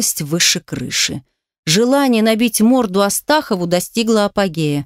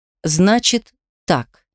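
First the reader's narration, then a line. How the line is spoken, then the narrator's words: Firm, unyielding. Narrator (Russian): заговорил непреклонным тоном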